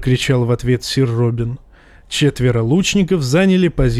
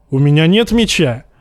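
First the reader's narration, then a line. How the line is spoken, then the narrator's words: Shout. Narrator (Russian): крикнул Джейми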